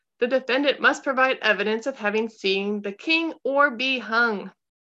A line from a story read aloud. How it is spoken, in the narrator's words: shouting